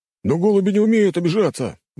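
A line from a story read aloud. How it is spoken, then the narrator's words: Exclaimed. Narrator (Russian): воскликнул он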